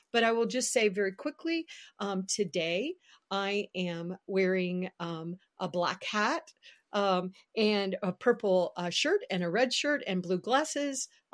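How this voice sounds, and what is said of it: Southern American accent. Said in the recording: “my Southern accent”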